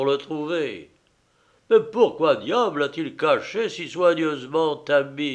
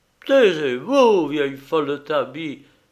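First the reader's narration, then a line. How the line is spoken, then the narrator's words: Angry exclamation. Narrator (French): s'écria Pierre rouge de colère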